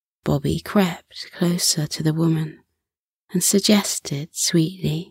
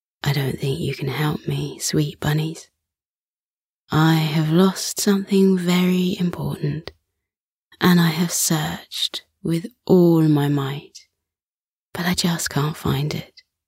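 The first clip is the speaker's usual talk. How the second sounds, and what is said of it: Husky, deep woman's character voice. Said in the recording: “she replied with a husky, deep voice.”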